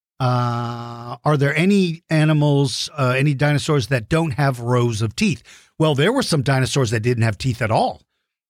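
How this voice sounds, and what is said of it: Rough, worn-out voice. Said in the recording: “as you can tell from my voice is kind of rough because I've been doing so many virtual lessons”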